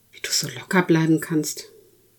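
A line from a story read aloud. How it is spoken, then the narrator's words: Loud, audible whisper. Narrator (German): flüstert für alle hörbar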